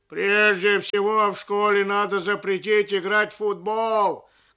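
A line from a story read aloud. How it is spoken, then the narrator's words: Elderly man shouting. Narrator (Russian): крикнул пожилой человек из зала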